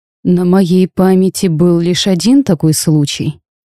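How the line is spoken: Plain. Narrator (Russian): ответил священник

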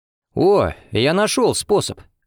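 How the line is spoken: Excited exclamation. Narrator (Russian): воскликнул Валерий

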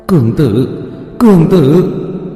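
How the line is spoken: Trembling voice. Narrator (Vietnamese): Một âm thanh run rẩy

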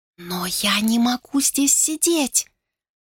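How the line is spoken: Desperate whisper. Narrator (Russian): отчаянно зашептала Сию

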